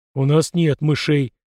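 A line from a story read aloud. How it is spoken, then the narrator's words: Deep bass voice. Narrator (Russian): пробасил Фома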